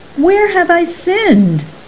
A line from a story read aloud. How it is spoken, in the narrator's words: cried Saran